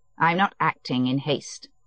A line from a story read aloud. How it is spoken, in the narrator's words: Alexei Alexandrovitch said coldly